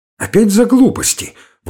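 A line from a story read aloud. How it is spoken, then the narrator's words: Exclaiming. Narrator (Russian): воскликнула Александра Петровна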